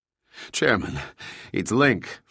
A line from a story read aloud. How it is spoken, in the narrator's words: Franklin gasped